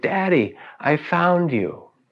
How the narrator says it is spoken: with a great shout of joy, she exclaimed

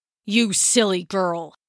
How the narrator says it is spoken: he spat

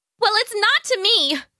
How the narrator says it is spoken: she yelled back

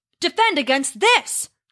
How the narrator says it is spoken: Thor roared

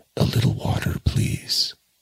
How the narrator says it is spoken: As soon as he could speak, he murmured

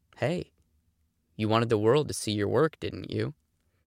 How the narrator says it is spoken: whispered

